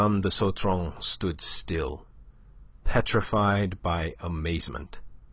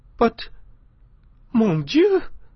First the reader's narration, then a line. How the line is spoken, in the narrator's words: cried the Countess